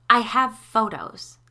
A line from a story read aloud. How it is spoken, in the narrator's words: snapped